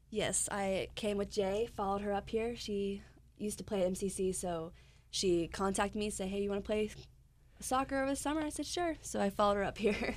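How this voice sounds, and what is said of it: Slight southern American accent. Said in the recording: “You also have just a touch of accent ... It's a little bit, maybe a little southern.”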